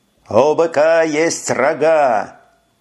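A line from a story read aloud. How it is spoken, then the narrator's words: Triumphant shout. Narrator (Russian): прокричал Деклай торжествующе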